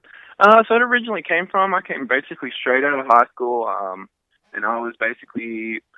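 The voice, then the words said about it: Australian accent. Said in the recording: “you guys can hear the accent. You're originally from Australia”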